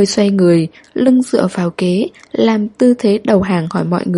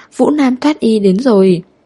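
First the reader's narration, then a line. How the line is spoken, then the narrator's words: Frightened crowd shouting. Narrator (Vietnamese): Trong tiếng kêu sợ hãi, đám đông cùng hô to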